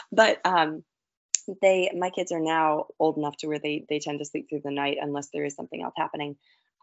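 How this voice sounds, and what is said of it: Strained, failing tired voice. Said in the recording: “my voice sounds like it's trying to grow on me, probably because my children are sick and are keeping me up at night”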